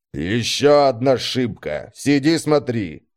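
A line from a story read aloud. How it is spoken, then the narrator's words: Displeased grumble. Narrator (Russian): недовольно пробурчал Фрунсберг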